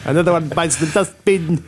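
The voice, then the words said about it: Slight put-on South African accent. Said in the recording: “a bit of a South African accent”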